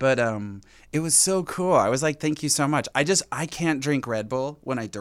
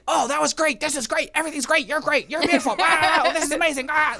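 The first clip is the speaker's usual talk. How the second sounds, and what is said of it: Hyper, over-caffeinated impression of someone. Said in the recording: “a good Tony impression”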